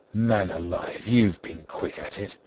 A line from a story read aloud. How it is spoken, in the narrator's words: said Diggory sarcastically